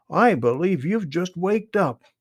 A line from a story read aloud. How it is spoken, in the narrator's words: exclaimed Jimmy Skunk